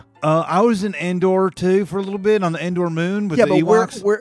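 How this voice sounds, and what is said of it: Put-on Texas-like accent. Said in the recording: “It's a very interesting accent. You sound like that's almost like a Texas accent.”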